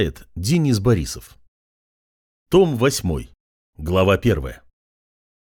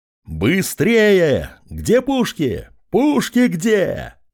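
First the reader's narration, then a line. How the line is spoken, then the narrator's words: Commander shouting. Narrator (Russian): кричал командир гарнизона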